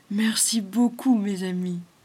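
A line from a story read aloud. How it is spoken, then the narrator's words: Linden tree, moved tone. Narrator (French): dit le tilleul d'un ton ému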